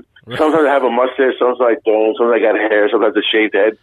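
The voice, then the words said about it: Brooklyn accent. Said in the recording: “my Brooklyn accent, it's something that stands out”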